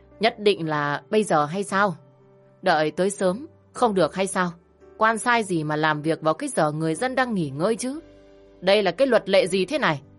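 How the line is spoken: Loud, drunk old man. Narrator (Vietnamese): Khả lão già hơi rượu từ ông tỏa ra nồng nặc, ông ta lớn tiếng

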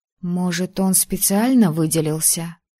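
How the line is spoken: Uncertain. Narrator (Russian): неуверенно произнесла я

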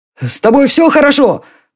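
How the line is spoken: Shout. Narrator (Russian): прокричал Джарри

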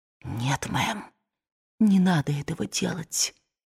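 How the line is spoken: Whispered. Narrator (Russian): мамушка прошептала

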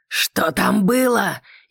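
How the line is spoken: Furious growl. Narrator (Russian): яростно прорычал мне в лицо Леннокс

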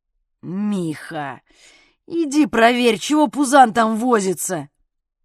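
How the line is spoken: Moaning. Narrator (Russian): простонал спортсмен

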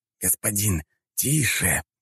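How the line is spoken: Hissed whisper. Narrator (Russian): прошипел ему на ухо подчиненный

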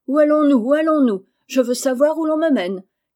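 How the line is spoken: Shouting. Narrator (French): criait-elle

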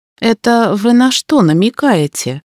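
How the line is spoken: Gloomy question. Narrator (Russian): мрачно уточнила я

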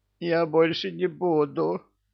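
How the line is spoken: House spirit pleading. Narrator (Russian): взмолился домовой

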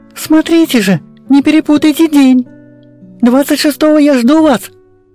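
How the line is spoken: Boy shouting. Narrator (Russian): кричал мальчик

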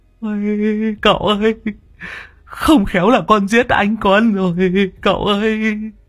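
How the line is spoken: Tearful, whimpering. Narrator (Vietnamese): Long đầu đất mếu máo

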